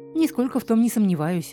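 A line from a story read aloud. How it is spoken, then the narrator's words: Sigh. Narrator (Russian): вздохнула Юнис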